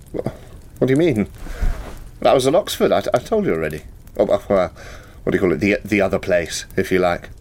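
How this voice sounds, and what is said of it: Affected-sounding English accent. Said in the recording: “that's an affected accent if I ever heard one”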